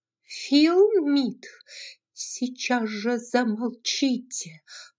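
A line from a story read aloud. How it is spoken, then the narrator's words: Hiss. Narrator (Russian): прошипела Мелани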